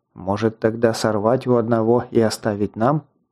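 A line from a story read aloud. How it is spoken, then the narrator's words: Said quietly. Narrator (Russian): Так же тихо произнес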